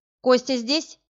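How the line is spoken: Shouting. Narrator (Russian): крикнула она охраннику

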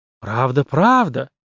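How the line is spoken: Even quieter voice. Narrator (Russian): она продолжила еще более тихим голосом

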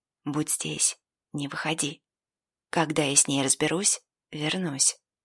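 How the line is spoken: Quick whisper. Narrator (Russian): я быстро прошептал

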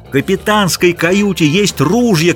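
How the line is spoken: Shouting over others. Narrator (Russian): кричал штурман, стараясь перекричать других

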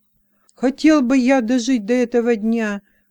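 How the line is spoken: Fervent exclamation. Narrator (Russian): горячо воскликнул Гденет, предводитель Исты

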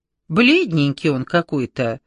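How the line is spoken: Mocking. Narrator (Russian): насмешливо сказала Кашманова

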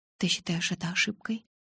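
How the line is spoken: Slightly sad voice. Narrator (Russian): Надеюсь, мой голос прозвучал не слишком печально

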